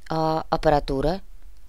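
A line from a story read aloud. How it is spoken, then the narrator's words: Timid male question. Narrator (Russian): робко поинтересовался один из стоящих вокруг мужчин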